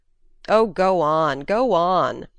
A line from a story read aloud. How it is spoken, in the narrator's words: young Hartley rapturously groaned